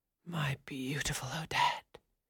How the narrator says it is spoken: he whispered in her ear

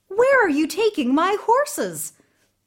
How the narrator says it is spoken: Ivan cried

